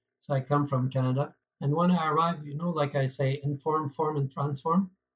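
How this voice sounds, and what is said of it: French Canadian accent. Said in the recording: “what type of accent I am, I'm French Canadian”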